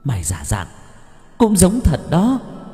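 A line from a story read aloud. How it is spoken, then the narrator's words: Shrill hissing. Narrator (Vietnamese): Cô gái áo đỏ rít lên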